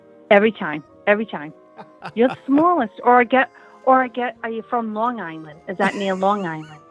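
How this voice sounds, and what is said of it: Rhode Island or Long Island accent. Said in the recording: “your accent sounds like it could be Long Island, could be Rhode Island”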